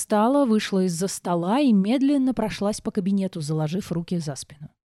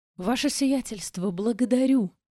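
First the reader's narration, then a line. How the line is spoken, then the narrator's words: Barely audible moan. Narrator (Russian): Едва слышно простонал мужчина, стоящий на коленях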